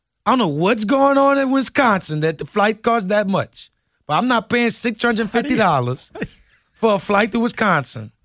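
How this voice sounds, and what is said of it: Excited voice with shifted accent. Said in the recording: “you slip in and out of this voice when you get really into it ... when you get excited, your whole accent changes.”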